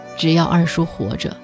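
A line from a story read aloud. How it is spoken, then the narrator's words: Sighing, professional tone. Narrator (Chinese): 大夫长叹一声，以他特有的职业语气说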